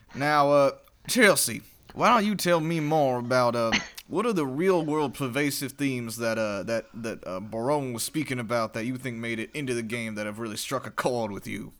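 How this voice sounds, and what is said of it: Southern-accented robot voice. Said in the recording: “What what accent you want me to do next? ... I want to hear more Southern Robot.”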